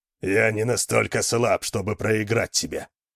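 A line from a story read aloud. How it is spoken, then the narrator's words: Offended growl. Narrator (Russian): прорычал Йорин, оскорбленный намеком на слабость или трусость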